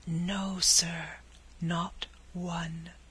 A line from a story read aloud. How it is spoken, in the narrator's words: whispered the waiter, putting his mouth nearly close to the warden's ear